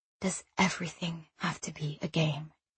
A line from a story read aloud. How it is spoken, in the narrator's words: He said in the barest shred of a whisper